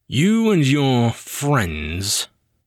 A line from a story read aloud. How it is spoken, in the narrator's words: he said the word with a sneer